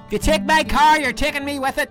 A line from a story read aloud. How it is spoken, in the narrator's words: Belfast accent, and yelled